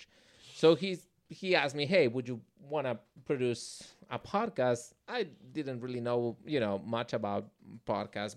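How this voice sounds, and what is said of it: Speaker's own foreign accent. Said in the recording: “He loves my accent.”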